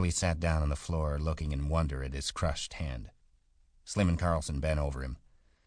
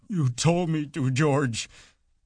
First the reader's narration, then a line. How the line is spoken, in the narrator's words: he said miserably